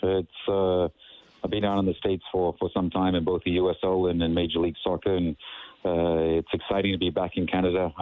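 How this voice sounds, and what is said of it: Slight South African-tinged accent. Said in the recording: “I have a bit of an accent, a funky one, I guess ... You were born and raised in South Africa.”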